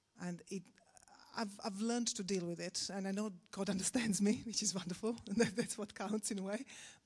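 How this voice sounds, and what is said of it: Non-native English accent. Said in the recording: “I'm a foreigner ... I'm aware of my accent.”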